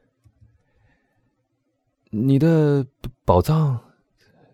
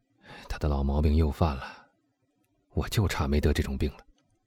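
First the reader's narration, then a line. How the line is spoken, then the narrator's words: Muttering to himself. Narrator (Chinese): 埃德蒙喃喃的对自己说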